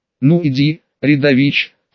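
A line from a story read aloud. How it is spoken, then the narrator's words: Short laugh. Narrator (Russian): хохотнул Александр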